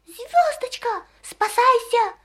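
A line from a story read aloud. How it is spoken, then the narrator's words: Desperate shout, half-choking. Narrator (Russian): отчаянным голосом крикнул ей ученый Скворец, чуть не подавившись крапивницей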